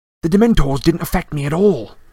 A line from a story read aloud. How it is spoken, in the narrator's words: Harry said excitedly